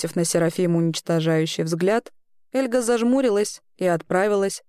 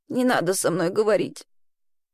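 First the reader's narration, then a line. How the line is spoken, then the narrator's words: Hoarse. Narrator (Russian): хрипло ответила Элли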